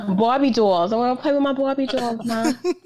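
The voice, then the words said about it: Put-on New York accent. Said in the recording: “I had a New York accent until I was six ... that accent”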